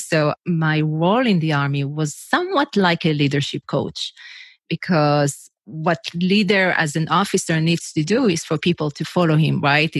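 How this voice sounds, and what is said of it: Israeli-accented English. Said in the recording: “I'm originally from Israel, if you wonder what's the accent, where is she from?”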